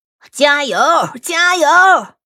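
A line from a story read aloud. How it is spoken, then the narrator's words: Shouting encouragement. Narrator (Chinese): 栏杆帮着矮房子喊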